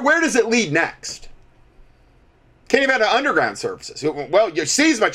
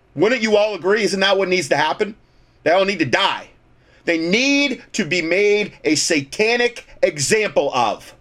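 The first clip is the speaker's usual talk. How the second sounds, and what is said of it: Sarcastic, dramatized delivery. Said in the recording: “I'm being sarcastic,... I like to do that to dramatize”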